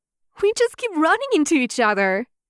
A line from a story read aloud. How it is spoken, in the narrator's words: she says cheerfully